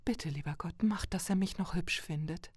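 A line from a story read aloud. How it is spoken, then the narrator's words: Whispered prayer. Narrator (German): flüsterte sie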